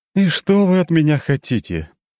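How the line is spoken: Weary sigh. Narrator (Russian): Мария II устало вздохнула

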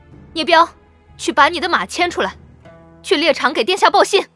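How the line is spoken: Loud, displeased. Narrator (Chinese): 云兰脸色难看得很，高声道

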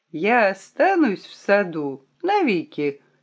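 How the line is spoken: Joyful, laughing. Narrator (Russian): сказал Том и засмеялся от радости

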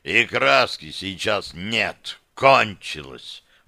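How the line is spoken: Sudden bark. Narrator (Russian): Вдруг рявкнул Амбал

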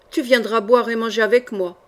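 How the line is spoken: Growled. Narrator (French): gronda Doctonville

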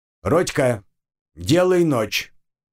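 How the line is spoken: Barked shout. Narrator (Russian): гаркнул я

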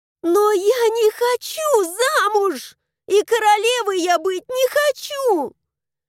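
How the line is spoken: Desperate shout. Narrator (Russian): В отчаянии закричала я

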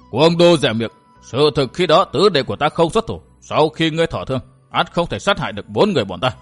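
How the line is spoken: Interrupting roar. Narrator (Vietnamese): Hàng Ma Tăng không đợi chàng nói hết vội gầm lên

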